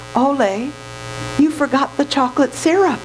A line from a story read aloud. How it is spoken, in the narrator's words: she purred